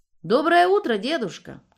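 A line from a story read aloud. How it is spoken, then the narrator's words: Shout. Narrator (Russian): крикнул Илья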